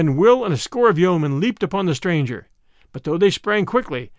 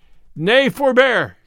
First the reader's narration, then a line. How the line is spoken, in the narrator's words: cried Robin, laughing until his sore sides ached again